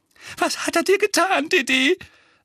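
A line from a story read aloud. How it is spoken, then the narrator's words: Trembling voice. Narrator (German): sagte Tante Petunia mit zitternder Stimme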